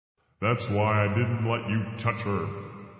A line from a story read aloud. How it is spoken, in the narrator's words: bellowed God